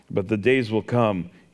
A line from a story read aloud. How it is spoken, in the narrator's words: said